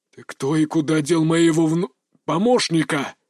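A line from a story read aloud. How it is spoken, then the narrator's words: Growled reply. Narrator (Russian): рыкнули в ответ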